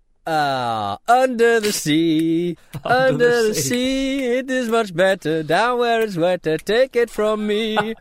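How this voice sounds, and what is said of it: Sings in a slight Indian accent. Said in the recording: “I sort of did a bit of an Indian accent there. I didn't mean to.”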